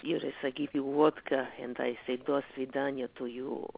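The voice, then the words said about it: Put-on Russian accent. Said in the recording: “the Russian narrator from Jimmy Kimmel ... Russian is my favorite accent ... if I talk like this”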